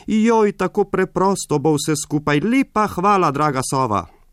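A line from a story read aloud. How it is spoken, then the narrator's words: Joyful call. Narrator (Slovenian): poskočil je od veselja in zaklical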